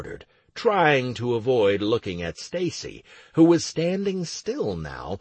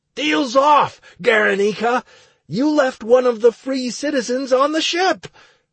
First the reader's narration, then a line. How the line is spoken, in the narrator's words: shouted into the air